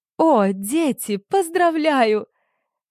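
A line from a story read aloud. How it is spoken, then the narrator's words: Mother's excited squeal. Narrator (Russian): Совершенно не по-светски взвизгивает мама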